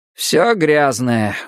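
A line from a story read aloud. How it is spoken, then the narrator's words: Sighing. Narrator (Russian): вздохнул Халворсен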